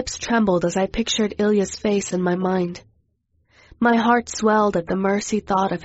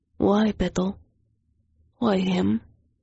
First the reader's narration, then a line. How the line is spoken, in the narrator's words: His voice softened and he asked